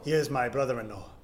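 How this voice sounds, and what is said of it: Put-on fake accent. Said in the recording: “It is hard to say in this fake accent ... I'm doing.”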